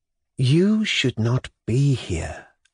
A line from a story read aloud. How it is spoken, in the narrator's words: Nikolai Vsyevolodovitch said to her in a caressing and melodious voice, and there was the light of an extraordinary tenderness in his eyes